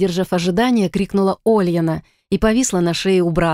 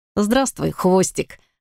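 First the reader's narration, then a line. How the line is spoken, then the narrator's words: Laughing. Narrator (Russian): рассмеялся тот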